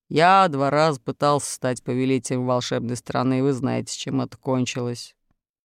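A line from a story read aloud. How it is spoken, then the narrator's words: Calm. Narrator (Russian): спокойно сказал Урфин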